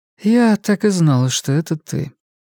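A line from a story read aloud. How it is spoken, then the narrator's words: Surprisingly impassive. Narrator (Russian): произнесла она на удивление бесстрастным тоном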